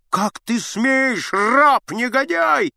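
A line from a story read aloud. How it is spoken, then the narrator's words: Shout. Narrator (Russian): закричал Аггей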